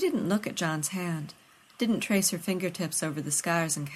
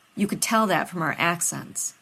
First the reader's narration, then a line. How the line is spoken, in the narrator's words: Rodney scoffed